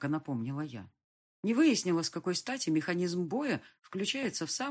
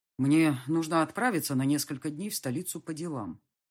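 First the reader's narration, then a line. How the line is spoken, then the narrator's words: Dry, curt statement. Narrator (Russian): сухо сообщил полковник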